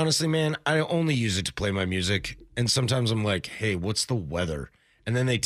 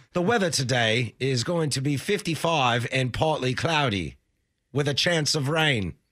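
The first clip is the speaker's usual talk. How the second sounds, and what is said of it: Put-on Australian female voice. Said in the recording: “the lady with the Australian accent”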